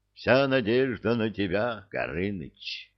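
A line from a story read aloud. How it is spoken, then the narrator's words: Whispered. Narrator (Russian): прошептал он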